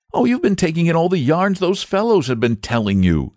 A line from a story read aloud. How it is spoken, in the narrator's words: said the boy impatiently